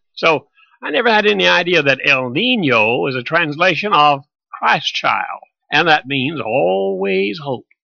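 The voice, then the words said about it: Southern US English accent. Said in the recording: “English, with a southern accent.”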